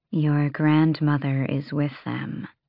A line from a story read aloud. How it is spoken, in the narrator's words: Asterin murmured to Manon